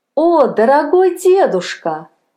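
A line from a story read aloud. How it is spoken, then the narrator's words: Joyful boy's exclamation. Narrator (Russian): воскликнул радостно мальчик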